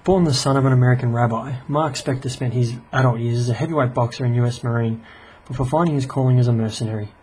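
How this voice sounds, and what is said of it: Australian accent. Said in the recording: “I hope that my Australian accent doesn't throw you off too much.”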